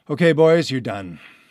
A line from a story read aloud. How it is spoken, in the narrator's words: I panted